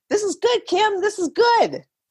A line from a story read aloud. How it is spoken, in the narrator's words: The doctors yell out